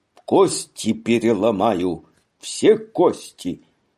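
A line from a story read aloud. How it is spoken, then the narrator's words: Loud cry. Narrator (Russian): вскрикивал сильным голосом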